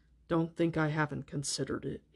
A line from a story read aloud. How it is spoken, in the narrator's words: he said quietly